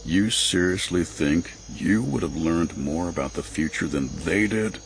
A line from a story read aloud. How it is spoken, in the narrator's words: Avaros sighed